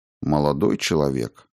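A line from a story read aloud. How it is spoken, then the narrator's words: Undertone. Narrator (Russian): сказал он вполголоса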